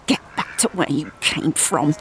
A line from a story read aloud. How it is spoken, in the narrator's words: he hisses